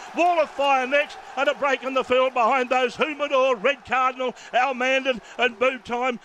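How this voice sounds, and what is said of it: Breathless, out-of-breath race call. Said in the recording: “I'm out of breath.”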